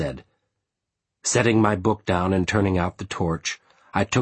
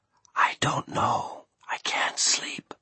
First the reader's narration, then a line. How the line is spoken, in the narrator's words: Bringing her mouth to my ear, she whispered